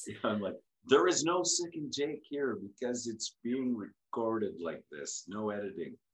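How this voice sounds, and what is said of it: Deep polished radio voice. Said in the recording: “There is that awesome radio voice.”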